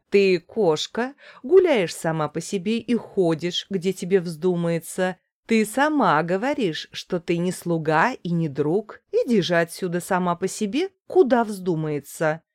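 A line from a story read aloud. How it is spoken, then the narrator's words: Woman laughing, speaking. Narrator (Russian): Женщина засмеялась и сказала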